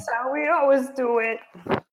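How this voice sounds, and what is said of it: Silly put-on character voice. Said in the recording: “can you do that voice again? That impression ... I don't know why I talk like that whenever I'm making my own stupid voice. ... That little voice inside my head sounds like that”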